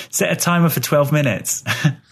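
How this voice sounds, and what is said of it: Put-on British accent. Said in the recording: “challenge Siri by using a British accent.”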